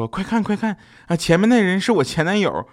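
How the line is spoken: Whisper. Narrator (Chinese): 女朋友小声说

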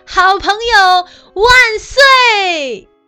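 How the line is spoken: Joyful shout. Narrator (Chinese): 高兴的喊着

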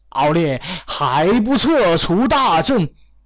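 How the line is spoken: Loud, pained. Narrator (Chinese): 面色一苦，忍不住对敖烈大声说道

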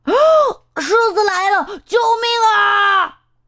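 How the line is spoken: Roaring. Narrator (Chinese): 猴子大吼着

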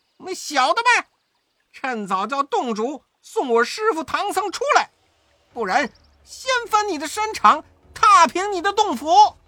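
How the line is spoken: Stern loud shout. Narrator (Chinese): 悟空厉声高叫道

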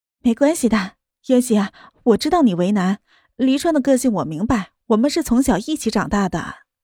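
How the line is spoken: Smiling, gentle. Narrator (Chinese): 对着莫渊熙笑笑

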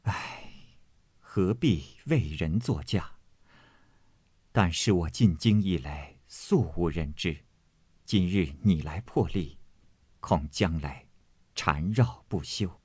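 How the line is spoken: Sighing. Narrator (Chinese): 妙玉叹道

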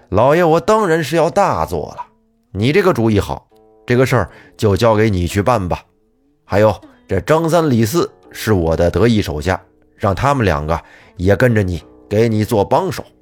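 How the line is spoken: Smiling. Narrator (Chinese): 李武德笑着说

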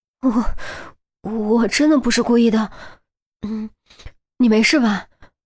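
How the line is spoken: Tearful voice. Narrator (Chinese): 于西语气中带了些哭音

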